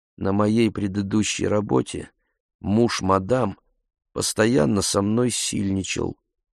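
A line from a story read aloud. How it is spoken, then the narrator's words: Quiet. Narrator (Russian): сказала тихо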